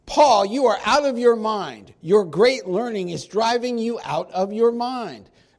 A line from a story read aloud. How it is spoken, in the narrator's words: Festus said with a loud voice, in other words, he yelled at him